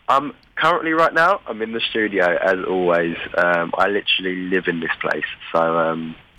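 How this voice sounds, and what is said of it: Voice sounds rough and unwell. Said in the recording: “you can hear by my voice, I sound, I sound terrible.”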